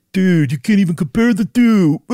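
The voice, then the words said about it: Imitated Everest climber voice. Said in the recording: “That is such a good Everest climber impression.”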